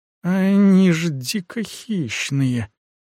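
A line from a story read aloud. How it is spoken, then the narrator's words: Weak voice. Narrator (Russian): слабым голосом сказал Костиан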